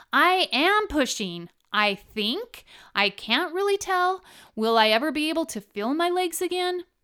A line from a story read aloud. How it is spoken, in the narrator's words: me shouting back